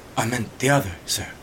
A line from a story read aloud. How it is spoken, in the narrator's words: he muttered